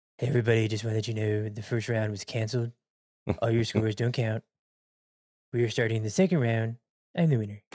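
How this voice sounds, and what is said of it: Poor imitation of another person's voice. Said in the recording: “That's my really shitty Donald Trump impersonation.”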